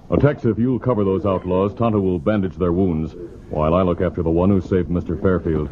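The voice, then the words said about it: Impression of the Lone Ranger. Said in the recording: “It's a pretty good impression... what Bruce Beamer sounded like as the Lone Ranger”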